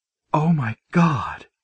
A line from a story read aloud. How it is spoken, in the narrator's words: she whispered, her eyes immediately filling with tears